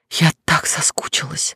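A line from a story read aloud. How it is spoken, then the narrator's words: Murmured. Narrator (Russian): бормочу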